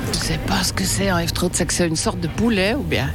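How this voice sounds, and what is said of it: Put-on Vaud Swiss French accent. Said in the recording (French): “la dame a fait un accent vaudois pour qu'on la reconnaisse pas. Voilà, c'était pas son vrai accent”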